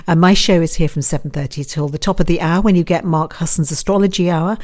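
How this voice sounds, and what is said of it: British accent. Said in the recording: “As you can hear from my voice, I'm the Brit here”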